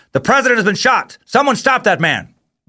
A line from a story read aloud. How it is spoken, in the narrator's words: someone yells